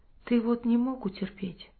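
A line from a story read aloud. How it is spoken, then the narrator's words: Plain. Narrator (Russian): говорит ему Семен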